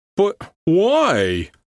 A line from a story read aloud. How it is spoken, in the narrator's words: Frankie almost wailed